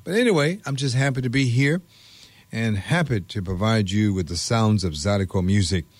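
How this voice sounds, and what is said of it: Slightly hoarse voice. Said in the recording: “I had lost my voice Tuesday, Wednesday, and part of Thursday... you probably can detect that I do have a little hoarseness that is kind of singing, is hanging around”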